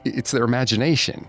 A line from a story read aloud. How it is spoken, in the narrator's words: the innkeeper stammered, perhaps too quickly